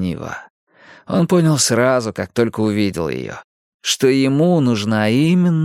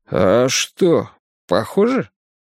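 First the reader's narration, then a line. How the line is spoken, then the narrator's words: Drunken mutter. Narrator (Russian): пробормотал Карри, почувствовав, что все еще пьян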